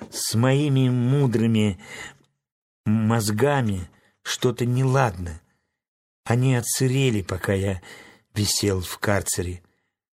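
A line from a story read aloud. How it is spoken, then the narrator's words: Sad whisper. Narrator (Russian): Страшила грустно прошептал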